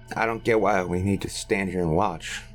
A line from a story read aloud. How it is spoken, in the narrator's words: muttered Roy with a scowl